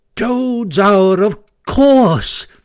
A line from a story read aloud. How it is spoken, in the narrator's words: cried the Mole delightedly